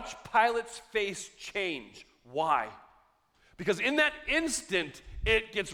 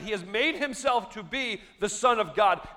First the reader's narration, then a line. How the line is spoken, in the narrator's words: the accusation is shouted